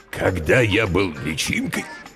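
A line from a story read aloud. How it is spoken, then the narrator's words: Hoarse, coughing parent. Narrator (Russian): хрипло начал родитель, закашлялся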